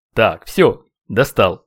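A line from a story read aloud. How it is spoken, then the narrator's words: Dark entity grumbling. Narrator (Russian): буркнула темная сущность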